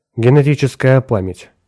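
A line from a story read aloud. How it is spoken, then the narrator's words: Dry tone. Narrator (Russian): сухо произнес Вебстер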